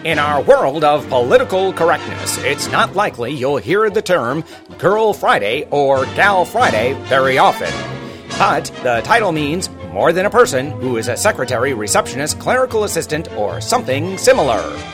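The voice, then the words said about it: Old-timey narrator voice. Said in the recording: “my old-timey narrator voice”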